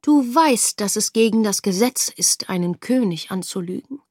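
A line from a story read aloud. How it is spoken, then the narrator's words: Mild voice. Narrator (German): sprach er mit milder Stimme an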